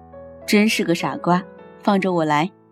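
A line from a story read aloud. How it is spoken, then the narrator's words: Doting, smiling. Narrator (Chinese): 笑得一脸宠溺地走上前去，摸摸他的头，笑着说一声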